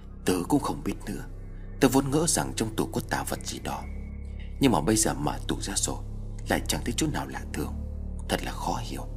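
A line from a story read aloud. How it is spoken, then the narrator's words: Disappointed, quiet. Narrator (Vietnamese): Tôn Kim Nguyên lại tỏ ra thất vọng, khẽ lắc đầu nói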